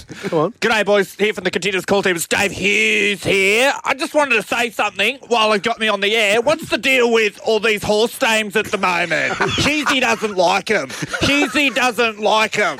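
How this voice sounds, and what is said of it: Imitates another person's voice. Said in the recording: “Dave Hughes impersonation ... That's very good. ... Very distinct very voice.”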